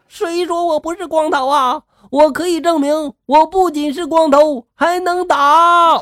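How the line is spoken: Roaring. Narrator (Chinese): 那人就吼了

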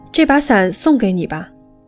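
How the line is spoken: Loud shout. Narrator (Chinese): 我大声喊

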